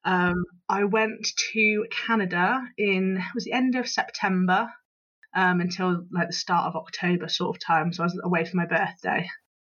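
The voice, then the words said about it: Bristol English accent. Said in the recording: “as you can probably tell from my accent, Bristol born and, born and bred”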